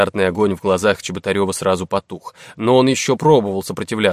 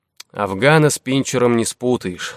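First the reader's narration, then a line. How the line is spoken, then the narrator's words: Sighing. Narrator (Russian): вздохнул Нестеренко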